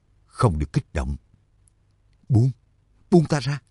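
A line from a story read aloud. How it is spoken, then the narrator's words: Whispered. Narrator (Vietnamese): thì thào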